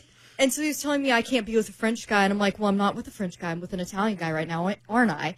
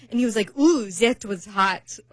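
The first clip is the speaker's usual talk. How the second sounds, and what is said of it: Bad put-on foreign accent. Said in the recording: “that was a really bad accent”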